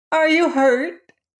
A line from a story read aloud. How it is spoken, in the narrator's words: called the Patchwork Girl anxiously